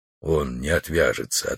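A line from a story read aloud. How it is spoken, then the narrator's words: Quiet. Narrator (Russian): ответил Алмаз тихо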